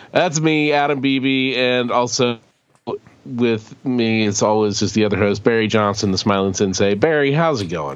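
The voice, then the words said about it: Sniffly, slightly lower congested voice. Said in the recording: “fighting off a cold, but you might be able to tell in my voice. It sounds a little bit sniffly and maybe a little lower in tone.”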